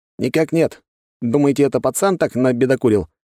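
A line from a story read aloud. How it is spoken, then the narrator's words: Man's snort over radio. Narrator (Russian): хмыкнул мужчина в рацию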